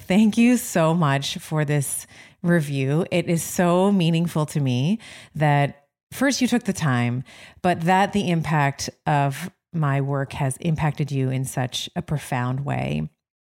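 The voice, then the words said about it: Tearful, emotional voice. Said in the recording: “I'm crying already. Like, if you can hear it in my voice”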